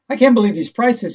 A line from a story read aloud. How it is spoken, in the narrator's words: exclaimed